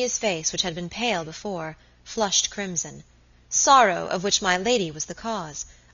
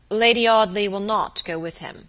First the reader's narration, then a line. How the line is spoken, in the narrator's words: said Robert gravely